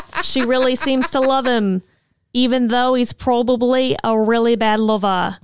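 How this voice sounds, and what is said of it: Put-on Australian accent. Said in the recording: “the best Australian accent of the night... So good... I was trying to do a bad one... it's not great”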